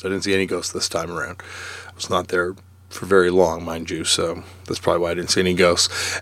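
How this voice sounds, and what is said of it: Slightly hoarse voice. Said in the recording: “my voice is a little hoarse... up late two nights in a row... my voice is a little hoarse.”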